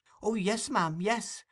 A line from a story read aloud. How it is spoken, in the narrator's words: replied Oliver eagerly